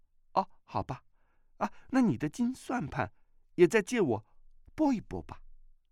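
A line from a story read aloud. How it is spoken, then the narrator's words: Laughing. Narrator (Chinese): 阿碧笑道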